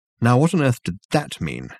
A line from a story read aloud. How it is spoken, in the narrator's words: said Dirk, irritably